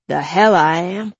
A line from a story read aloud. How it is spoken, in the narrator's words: spat